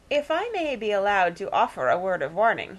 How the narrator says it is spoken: he said

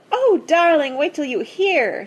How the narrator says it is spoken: she cried

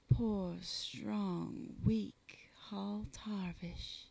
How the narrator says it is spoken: breathed

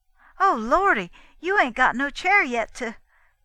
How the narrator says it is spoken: exclaiming

